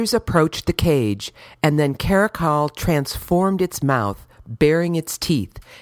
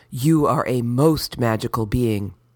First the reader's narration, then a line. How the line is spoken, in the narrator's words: I whispered